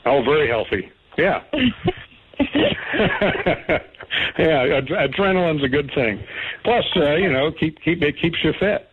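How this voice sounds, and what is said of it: Southern accent. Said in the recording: “that's just my Southern accent”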